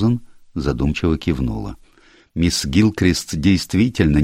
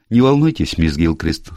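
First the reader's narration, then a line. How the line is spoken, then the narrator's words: Cheerful voice. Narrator (Russian): сказала она веселым голосом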